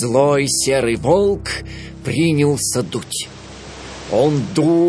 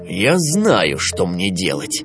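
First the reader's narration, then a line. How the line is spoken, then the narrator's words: Malicious grin. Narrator (Russian): злобно ухмыльнулся волк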